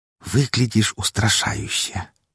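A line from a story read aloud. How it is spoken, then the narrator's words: Whisper over private channel. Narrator (Russian): прошептала лисичка по персональному каналу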